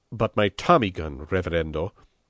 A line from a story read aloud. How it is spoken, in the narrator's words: he blurted out